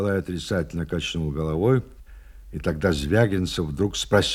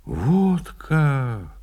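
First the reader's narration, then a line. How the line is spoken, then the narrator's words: Regretful drawl. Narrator (Russian): сожалеюще протянул Звягинцев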